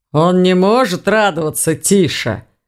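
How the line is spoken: Grumbled. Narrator (Russian): проворчал Думон

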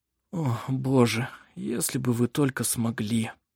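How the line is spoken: Tired whisper. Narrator (Russian): Устало прошептал

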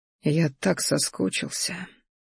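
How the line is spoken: Quiet, deeply emotional. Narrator (Russian): произнес тихо, вкладывая в эти слова все те чувства, которые сейчас ураганом носились внутри меня

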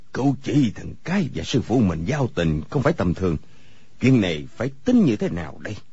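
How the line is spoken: Pensive muttering to himself. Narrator (Vietnamese): trầm ngâm, lẩm bẩm một mình

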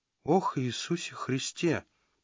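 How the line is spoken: Whisper. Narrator (Russian): прошептал Родранер

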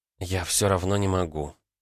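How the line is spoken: Quiet. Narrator (Russian): тихо сказала она

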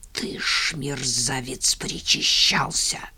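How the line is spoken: Ominous hiss, drunk. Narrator (Russian): зловеще прошипел Иван Мороз

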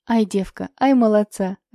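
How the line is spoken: Laughing. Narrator (Russian): рассмеялась Евдокия Никифоровна

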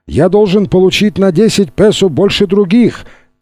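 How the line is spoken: Shout from below. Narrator (Russian): крикнул снизу Гуиллермо

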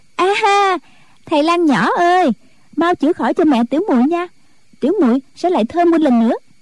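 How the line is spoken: Cheerful cry. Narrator (Vietnamese): Bất Hối vỗ tay reo lên

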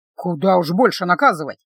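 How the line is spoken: Grumbling. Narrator (Russian): проворчал Эбер

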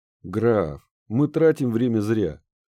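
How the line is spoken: Near-moan, thin man. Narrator (Russian): Практически простонал худой мужчина

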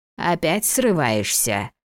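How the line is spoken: Grumbling. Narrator (Russian): проворчала почтенная повариха

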